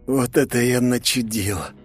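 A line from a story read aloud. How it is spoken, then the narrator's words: Hoarse wheeze. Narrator (Russian): прохрипел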